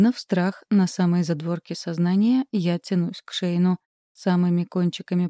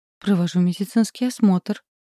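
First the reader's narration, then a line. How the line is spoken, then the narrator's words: Frightened whisper. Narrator (Russian): шепчу испуганно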